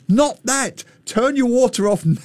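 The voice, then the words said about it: Shouting, quoting someone. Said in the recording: “he's screaming at me from England”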